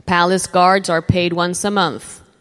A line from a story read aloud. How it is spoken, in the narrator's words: the captain replied